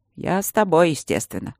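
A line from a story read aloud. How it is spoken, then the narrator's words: Dry. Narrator (Russian): сухо сказал рыжий маг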